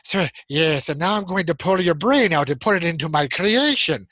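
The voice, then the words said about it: Slow, exaggerated mad-scientist voice impression. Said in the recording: “He sort of always spoke in a very slow sort of voice... I'm not doing a particularly good impression of him... kind of an exaggeration of that kind of impression”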